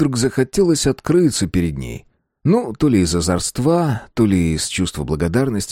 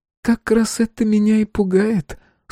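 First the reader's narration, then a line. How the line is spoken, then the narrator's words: Sighing again. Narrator (Russian): снова вздохнула Василиса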